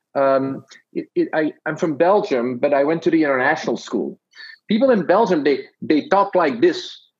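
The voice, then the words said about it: Belgian Dutch-accented English. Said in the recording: “I'm detecting a bit of an accent. Is it ... Dutch? ... I'm somewhere in like Canadian Dutch ... this sounds a little bit like that”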